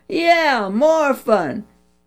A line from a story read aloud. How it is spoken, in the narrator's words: All the boys hollered